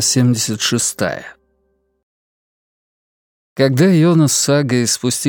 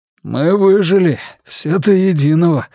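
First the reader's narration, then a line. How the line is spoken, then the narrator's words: Hoarse announcement. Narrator (Russian): хрипло объявил он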